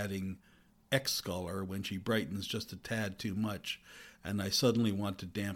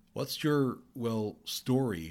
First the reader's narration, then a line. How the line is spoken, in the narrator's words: she asks